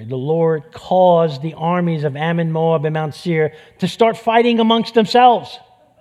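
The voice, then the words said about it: New York accent. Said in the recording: “it's my New York accent, I'm sorry”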